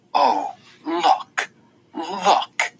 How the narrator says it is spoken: she says, her voice dripping bitterness

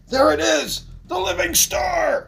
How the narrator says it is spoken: one shouts

